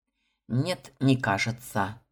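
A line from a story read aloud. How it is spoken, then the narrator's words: Gruff grumble. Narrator (Russian): буркнул капитан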